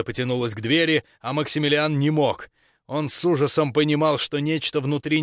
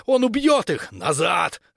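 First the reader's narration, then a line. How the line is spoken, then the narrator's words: Barking shout. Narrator (Russian): рявкнул Рафс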